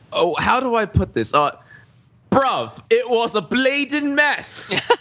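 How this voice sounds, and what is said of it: Poor put-on British accent. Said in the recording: “my British accent is awful”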